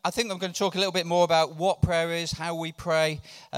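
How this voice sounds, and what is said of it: Slightly sore, strained voice. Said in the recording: “My voice is feeling a little bit sore this morning. I think it's after singing rather more passionately than normal”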